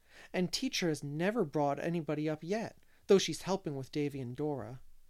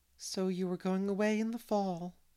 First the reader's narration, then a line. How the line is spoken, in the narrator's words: said Miss Lavender wistfully